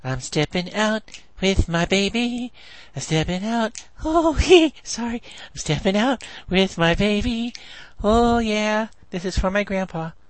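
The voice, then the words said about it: Impersonates a singer's horrible singing. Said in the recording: “talks like he's Michael Jackson's zombie clone, and he sings horribly. Here's my impersonation of his last performance.”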